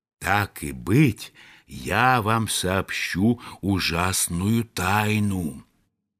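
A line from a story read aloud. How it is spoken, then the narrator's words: Secret whisper into ear. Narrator (Russian): Индюк наклонился к самому уху ежа и шепнул ему по секрету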